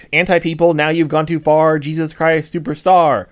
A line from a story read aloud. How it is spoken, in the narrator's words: screamed Marilyn on the stage